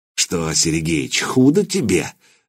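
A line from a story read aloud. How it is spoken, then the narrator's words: Snakelike hiss. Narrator (Russian): змеей прошипел он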